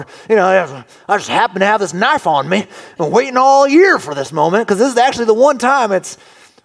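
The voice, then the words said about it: Put-on folksy uncle accent. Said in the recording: “what accent is that? I don't know. Uncle Ron's.”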